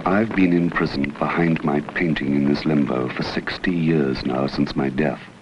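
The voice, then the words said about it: Dramatic old horror-movie voice. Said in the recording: “weird voice ... that sounds like Dracula ... It was more of a dramatic actor ... It was a Vincent Price copy”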